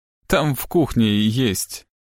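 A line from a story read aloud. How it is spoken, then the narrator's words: Strained, muffled. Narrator (Russian): выдавила Кэтрин, заглушив эти слова бумажным полотенцем, прижатым к губам и щекам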